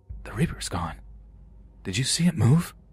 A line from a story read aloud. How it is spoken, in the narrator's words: I whisper over to my brother